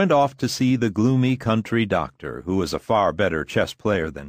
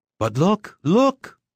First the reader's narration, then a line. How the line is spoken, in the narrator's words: exclaimed Lusion Sr